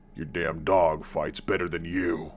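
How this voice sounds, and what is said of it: Growling monster voice. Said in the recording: “he says in a growling voice”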